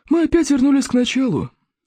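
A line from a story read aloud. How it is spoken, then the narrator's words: Sighing. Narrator (Russian): вздохнул зеленый смерч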